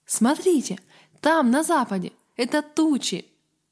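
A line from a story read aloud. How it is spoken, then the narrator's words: Exclaimed. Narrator (Russian): Авари Гаррет воскликнул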